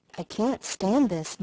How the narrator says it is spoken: muttered the old gentleman

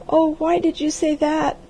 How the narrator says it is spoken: wailed the girl

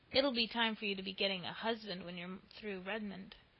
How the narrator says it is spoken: said Mr

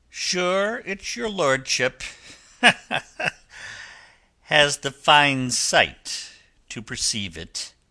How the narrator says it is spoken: laughed the captain

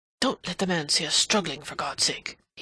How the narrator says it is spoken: he murmured

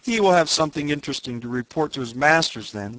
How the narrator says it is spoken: laughed Horvastus

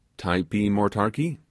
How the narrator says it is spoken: said

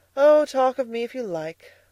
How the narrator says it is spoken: cried Edna

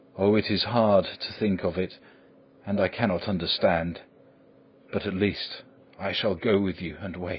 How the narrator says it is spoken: said in a broken voice

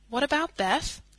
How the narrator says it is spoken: asked anxiously

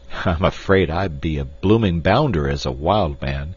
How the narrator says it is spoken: laughed Clayton ruefully

